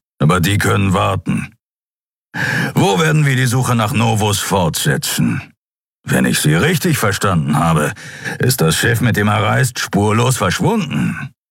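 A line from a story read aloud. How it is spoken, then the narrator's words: Grumbling. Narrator (German): brummte Sron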